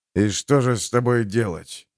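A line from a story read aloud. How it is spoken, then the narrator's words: Grumbling. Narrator (Russian): проворчал Харман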